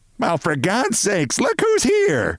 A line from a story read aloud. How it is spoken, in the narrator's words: bawled Mrs